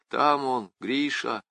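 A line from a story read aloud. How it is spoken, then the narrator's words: Gloomy inner thought. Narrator (Russian): уныло отметила про себя девушка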